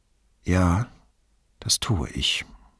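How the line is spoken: Sighing. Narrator (German): sagte Brunetti mit einem Seufzer

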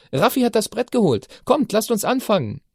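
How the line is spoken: Calling out. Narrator (German): rief

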